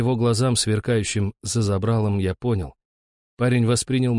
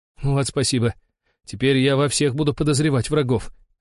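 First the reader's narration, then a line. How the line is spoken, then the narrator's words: Laughing. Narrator (Russian): рассмеялся Дрема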